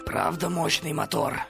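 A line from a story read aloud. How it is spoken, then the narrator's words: Hoarse wheeze. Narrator (Russian): прохрипел он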